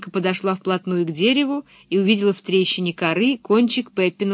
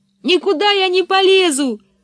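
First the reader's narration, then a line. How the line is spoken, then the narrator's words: Yelling. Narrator (Russian): заорала Анника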